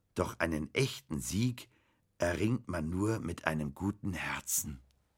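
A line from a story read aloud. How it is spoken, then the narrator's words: Slow reading aloud. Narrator (German): las Bastian langsam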